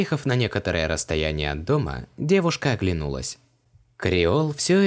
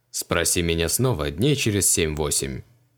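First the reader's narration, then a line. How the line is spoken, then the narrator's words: Snorted. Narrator (Russian): хмыкнул Криол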